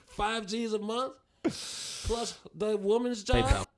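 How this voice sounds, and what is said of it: Put-on Australian accent. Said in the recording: “Back to my Australian baby ... That's my Australian accent.”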